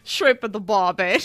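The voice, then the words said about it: Put-on Australian accent. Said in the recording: “channel like camp counselor, Ned Flanders, my Aussie accent.”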